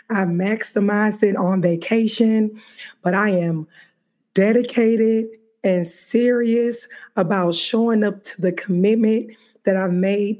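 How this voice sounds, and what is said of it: Slightly raspy voice. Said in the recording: “my voice is a little bit raspy.”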